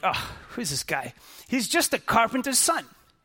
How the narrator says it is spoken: they scoffed

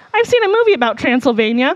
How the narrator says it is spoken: A kid blurted out

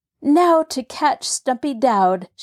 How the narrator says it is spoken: she cried

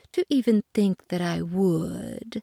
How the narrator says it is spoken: purred the cat

